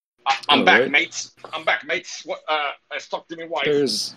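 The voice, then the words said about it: Weak put-on English accent. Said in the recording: “you need to work on your English accent, bro.”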